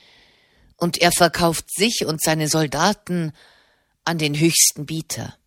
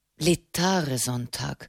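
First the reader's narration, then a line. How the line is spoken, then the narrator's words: Thoughtful murmur. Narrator (German): murmelte nachdenklich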